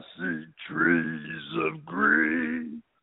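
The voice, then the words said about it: Sings imitating another person's voice. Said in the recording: “my Louis Armstrong impression”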